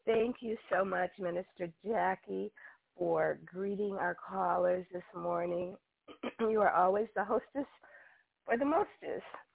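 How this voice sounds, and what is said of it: Slightly hoarse voice. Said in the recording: “I must apologize for my voice this morning ... just getting over a cold, and so my voice is a little hoarse. ... if I have to cough”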